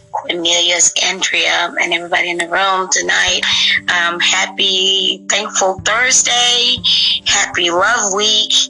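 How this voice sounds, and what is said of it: Worn, strained voice. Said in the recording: “Please excuse my voice. I've been teaching all day”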